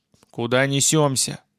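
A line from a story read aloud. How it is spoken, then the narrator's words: Grumbling. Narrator (Russian): проворчал я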